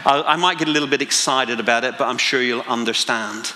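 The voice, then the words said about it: Northern Irish Belfast accent. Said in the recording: “my accent, I've lived in Spain, I've lived in England, but I'm originally from Belfast in Northern Ireland.”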